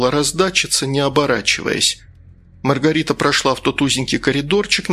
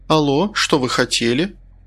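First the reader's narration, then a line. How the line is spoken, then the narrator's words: Composed, even voice. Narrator (Russian): Маргарита сначала растерялась, а потом, взяв себя в руки, ровным голосом произнесла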